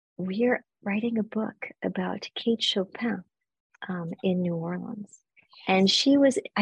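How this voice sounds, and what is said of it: Whispering. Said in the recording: “I don't know why I'm whispering”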